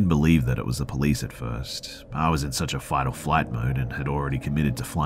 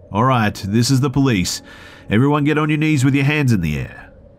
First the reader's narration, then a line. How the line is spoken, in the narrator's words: a voice called out